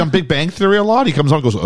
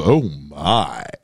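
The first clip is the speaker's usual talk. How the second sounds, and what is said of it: George Takei impression. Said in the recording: “That was a good George Takei impression.”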